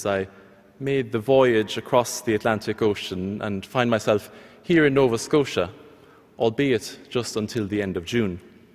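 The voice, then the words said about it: Irish accent. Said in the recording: “my accent, I've come from Ireland”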